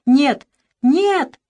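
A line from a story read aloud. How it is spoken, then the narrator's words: Shout. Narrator (Russian): закричал Иван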